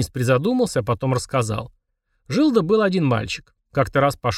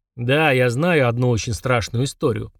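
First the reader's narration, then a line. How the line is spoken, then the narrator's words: Grumbling. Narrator (Russian): проворчал Фрундорог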